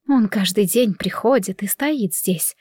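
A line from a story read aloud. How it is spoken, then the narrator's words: Whisper. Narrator (Russian): прошептала мама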